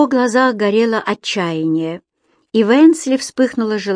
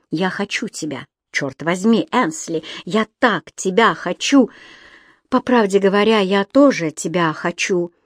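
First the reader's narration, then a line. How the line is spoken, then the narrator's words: Passionate whisper. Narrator (Russian): Кэмерон с потемневшими от страсти глазами обхватил руками ее лицо и прошептал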